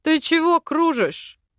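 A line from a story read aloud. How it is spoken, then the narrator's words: Mocking bearded man. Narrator (Russian): насмешливо спросил бородач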